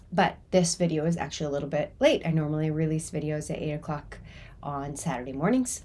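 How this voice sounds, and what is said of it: Slightly stuffy, congested voice. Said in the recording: “you probably can hear in my voice that I have a little bit of a cold.”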